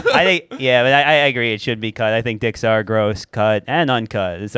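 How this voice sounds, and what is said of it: Imitates another person's voice. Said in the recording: “that's my impression of auction”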